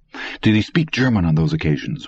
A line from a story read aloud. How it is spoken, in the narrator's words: Richler asked quickly